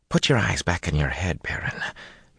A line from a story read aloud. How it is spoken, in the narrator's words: Min whispered